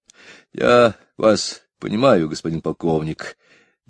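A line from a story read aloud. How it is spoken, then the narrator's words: Dejected voice. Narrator (Russian): говорил он упавшим голосом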